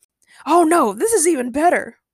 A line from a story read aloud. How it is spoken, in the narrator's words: Ray replied happily